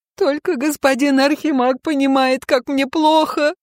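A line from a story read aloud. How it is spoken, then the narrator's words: Loud sobbing. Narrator (Russian): Громко рыдаю я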